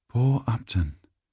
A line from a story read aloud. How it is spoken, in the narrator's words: whispered the woman before me